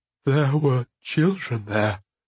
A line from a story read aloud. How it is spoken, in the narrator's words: Prilcop said brokenly